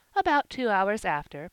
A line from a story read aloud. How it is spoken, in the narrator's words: Polly said merrily